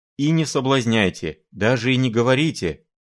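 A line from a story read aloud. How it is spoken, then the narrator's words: Exclaimed. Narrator (Russian): воскликнул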